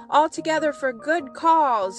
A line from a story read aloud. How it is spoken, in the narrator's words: shrieked the King Crow